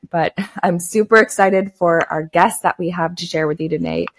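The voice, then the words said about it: Slightly scratchy voice. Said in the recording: “My voice is a little bit scratchy today, so sorry if I sound a little bit different”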